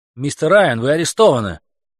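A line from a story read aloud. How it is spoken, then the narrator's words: Squeaky shout. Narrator (Russian): крикнула Каролина и сама подивилась писклявости своего голоса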